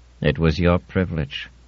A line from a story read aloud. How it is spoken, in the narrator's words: said Mullen in his dry voice